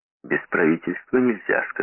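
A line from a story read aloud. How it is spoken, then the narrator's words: Plain. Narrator (Russian): сказал Сомс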